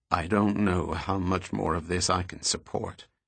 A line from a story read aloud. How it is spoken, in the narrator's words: he told Goyette in a tired voice